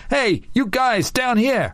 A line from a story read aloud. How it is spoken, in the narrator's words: Eric yelling